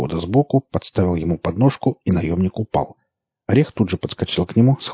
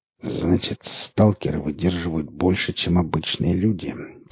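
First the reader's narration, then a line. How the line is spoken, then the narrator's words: Clipped, through teeth. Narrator (Russian): процедил он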